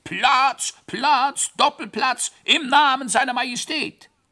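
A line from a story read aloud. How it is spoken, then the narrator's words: Bellowing. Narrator (German): dauerläuferte brüllend der Bröllnickel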